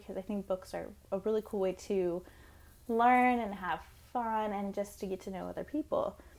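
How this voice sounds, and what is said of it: Dry, slightly weird-sounding voice. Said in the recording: “my voice is a little weird. It's a little dry today. I think I'm getting sick.”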